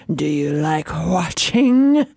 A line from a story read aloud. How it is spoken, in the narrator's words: He breathed